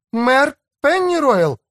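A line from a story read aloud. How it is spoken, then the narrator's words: Exclamation. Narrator (Russian): воскликнула Рен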